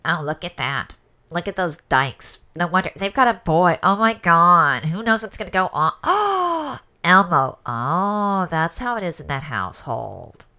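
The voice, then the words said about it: Impersonates a judgmental woman's voice. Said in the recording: “I really like your impersonation of a straight woman... they're like a judgmental straight woman.”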